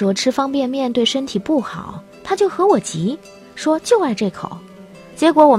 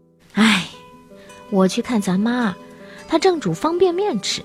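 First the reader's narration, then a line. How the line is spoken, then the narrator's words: Sighing. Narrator (Chinese): 他叹了口气说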